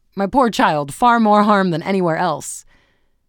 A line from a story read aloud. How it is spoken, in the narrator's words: It was on his lips to exclaim